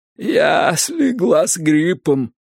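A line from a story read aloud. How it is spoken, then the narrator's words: Hoarse voice. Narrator (Russian): сипло начала она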